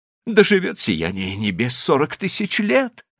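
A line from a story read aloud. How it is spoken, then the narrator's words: Joyful address. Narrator (Russian): радостно обратился Диса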